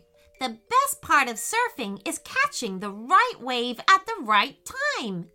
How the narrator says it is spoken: exclaimed Peyton

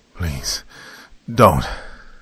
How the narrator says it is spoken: Malcolm pleaded with the gangster

